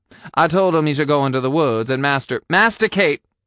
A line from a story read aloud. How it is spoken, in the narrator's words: I exclaimed